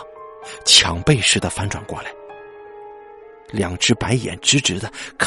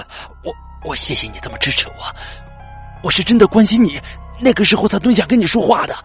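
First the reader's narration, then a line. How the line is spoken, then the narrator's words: Breathless, strained. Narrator (Chinese): 阿拓被勒得喘不过气来，无法挣脱，但是勉强的说出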